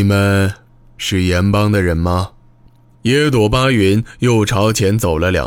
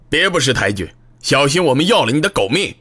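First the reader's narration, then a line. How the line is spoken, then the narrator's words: Sudden loud shouting. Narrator (Chinese): 面对野朵巴云的质问，他突然大声叫喊起来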